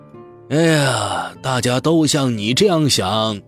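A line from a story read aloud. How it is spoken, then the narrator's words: Sighing old man. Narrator (Chinese): 老头叹了口气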